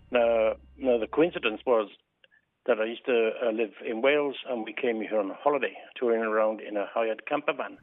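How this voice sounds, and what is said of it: Welsh accent. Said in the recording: “the cashier recognised my Welsh accent ... everybody seems to think I was Scottish rather than Welsh”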